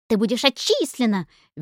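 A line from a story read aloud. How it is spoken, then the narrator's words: Shrieking. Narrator (Russian): визжала Шмелёва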